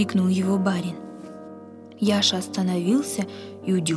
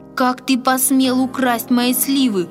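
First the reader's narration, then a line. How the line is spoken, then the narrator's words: Trembling angry shout. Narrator (Russian): дрожа от гнева, закричал он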